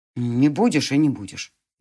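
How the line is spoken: Hurt grumble. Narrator (Russian): буркнул волчонок-оборотень, и внезапно по его лицу прошла судорога обиды

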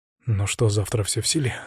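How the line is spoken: Quiet, confident question. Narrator (Russian): спросил он тихо, но уверенно

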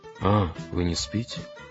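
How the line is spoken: Quiet reply. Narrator (Russian): так же тихо отозвался Ганс

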